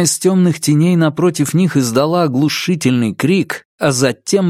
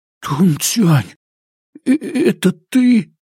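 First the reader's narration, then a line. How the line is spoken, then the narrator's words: Trembling whisper. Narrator (Russian): Джу дрожащим голосом прошептал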